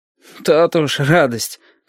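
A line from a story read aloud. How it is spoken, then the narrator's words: Snorting hmph. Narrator (Russian): хмыкнул Яшка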